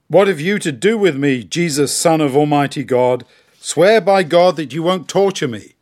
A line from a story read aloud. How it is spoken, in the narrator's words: In a loud voice he cried out